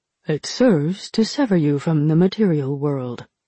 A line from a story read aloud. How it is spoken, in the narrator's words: Jiang answered